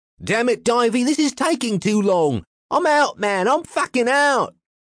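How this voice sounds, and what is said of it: Thick put-on Cockney accent. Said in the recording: “says a tall man with a thick Cockney accent.”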